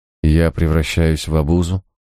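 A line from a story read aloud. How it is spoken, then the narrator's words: Flat colorless voice. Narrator (Russian): бесцветным голосом заметила она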